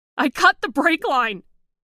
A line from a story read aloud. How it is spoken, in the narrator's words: she shouted